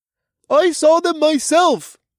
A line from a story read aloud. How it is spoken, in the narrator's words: the mole man calling for our death shouted